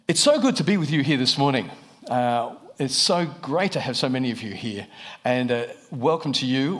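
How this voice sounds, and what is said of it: Australian accent. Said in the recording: “I'm from Australia, if you're wondering about the accent.”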